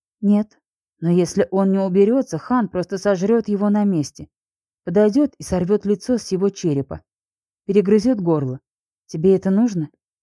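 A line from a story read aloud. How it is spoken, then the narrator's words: Completely calm. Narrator (Russian): она говорила абсолютно спокойно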